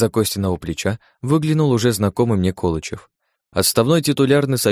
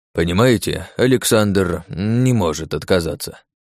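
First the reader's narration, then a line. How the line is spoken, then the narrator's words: Mumbled. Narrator (Russian): промямлил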